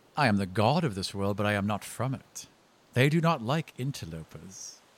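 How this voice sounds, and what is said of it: British-accented villain character voice. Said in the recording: “Interlopers in a British accent.”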